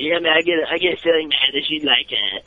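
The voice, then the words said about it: Impression of Jon Moxley. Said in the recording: “your impression of Moxley ... Mine's not good”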